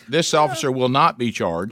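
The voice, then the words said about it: Mimics a news anchor delivery. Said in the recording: “I'm doing my impression of the news.”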